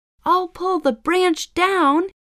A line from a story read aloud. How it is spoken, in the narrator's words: shouted